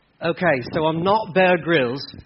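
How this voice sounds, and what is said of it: Poor put-on English accent, sounds Australian. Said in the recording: “this isn't even a good accent, because it's like a Justin Bieber accent that's probably more Australian than it is English”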